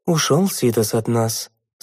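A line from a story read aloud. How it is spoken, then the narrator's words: Grieving sigh. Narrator (Russian): сокрушенно вздохнул Литос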